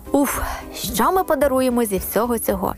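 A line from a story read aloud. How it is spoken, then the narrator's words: Sighing. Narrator (Ukrainian): зітхнула Єва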